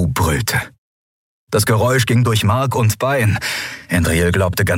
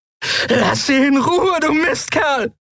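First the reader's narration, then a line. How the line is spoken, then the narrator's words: Powerful scream. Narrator (German): schrie sie mit Wunderkehle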